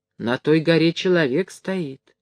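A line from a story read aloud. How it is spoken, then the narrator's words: Whisper. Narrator (Russian): шепнул Никита Тарасу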